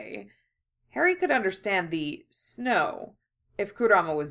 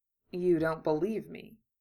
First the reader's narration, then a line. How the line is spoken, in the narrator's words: Kurama said